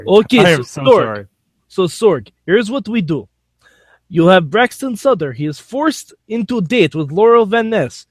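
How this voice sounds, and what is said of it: Weak put-on Russian accent. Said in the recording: “How do you like my Russian accent? Is it good? ... No. ... Not great. Honestly, not great.”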